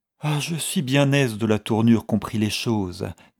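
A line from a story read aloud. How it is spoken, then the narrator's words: Languid voice. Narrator (French): disait cette dernière d'une voix languissante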